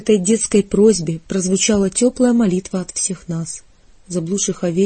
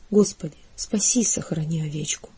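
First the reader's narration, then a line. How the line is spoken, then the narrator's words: Quiet. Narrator (Russian): Кирилл тихо сказал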